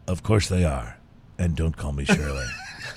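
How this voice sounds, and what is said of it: Imitates another person's voice. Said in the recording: “In my best bad Leslie Nielsen impression ... That was a pretty good bad Leslie Nielsen, wasn't it?”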